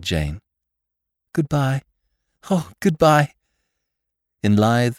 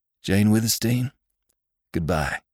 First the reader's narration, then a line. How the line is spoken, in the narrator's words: called Venters hoarsely